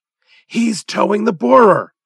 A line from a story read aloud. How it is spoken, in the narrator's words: cried the doctor in exultation